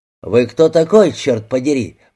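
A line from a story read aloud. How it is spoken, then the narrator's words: Deep bass voice. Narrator (Russian): пробасил Бейли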